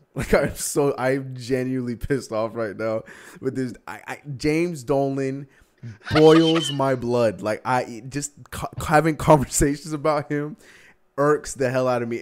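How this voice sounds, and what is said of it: Upset, angry voice. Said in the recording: “can you tell by my voice how upset I am?”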